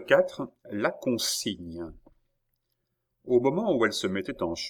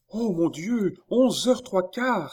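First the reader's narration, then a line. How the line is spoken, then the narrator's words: Two women exclaiming together. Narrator (French): s'écrièrent ensemble les deux femmes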